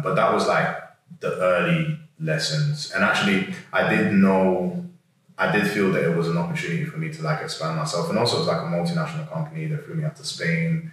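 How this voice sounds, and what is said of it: London accent. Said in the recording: “with a London accent”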